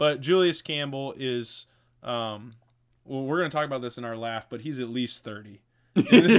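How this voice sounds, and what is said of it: Usual voice. Nothing is said of it.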